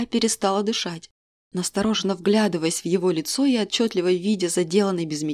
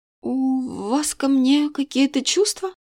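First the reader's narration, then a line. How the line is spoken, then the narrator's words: Trembling voice. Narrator (Russian): спросила дрогнувшим голосом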